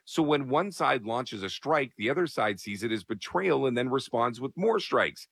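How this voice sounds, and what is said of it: Worn-out voice. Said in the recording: “sorry for my voice, I was at a wrestling show”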